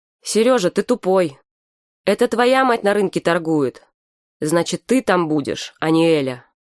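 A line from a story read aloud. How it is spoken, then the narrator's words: Loud, heard by everyone. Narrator (Russian): Саша сказала так громко, что услышали все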